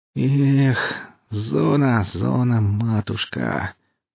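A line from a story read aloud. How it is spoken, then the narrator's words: Wolf-like wail through teeth. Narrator (Russian): По-волчьи, сквозь зубы начал причитать Гоша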